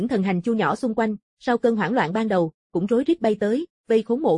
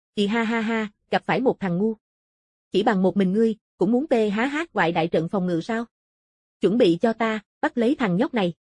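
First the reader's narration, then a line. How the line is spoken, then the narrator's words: Loud laughter. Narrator (Vietnamese): Tướng quân cười lớn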